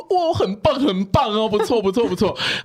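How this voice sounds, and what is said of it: Imitation of the boss praising. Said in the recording (Chinese): “我现在有点模仿错”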